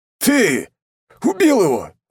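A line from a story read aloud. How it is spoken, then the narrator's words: Growling. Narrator (Russian): зарычал второй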